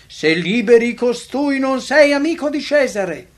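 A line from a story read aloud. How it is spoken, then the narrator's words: Crowd shouting. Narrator (Italian): i giudei gridavano dicendo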